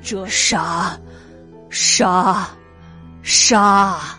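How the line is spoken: Frenzied mumbling. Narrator (Chinese): 人猛……喃喃狂语

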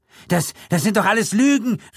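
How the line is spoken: Called out. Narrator (German): rief Gilditch, nun an die Vogelscheuche gerichtet

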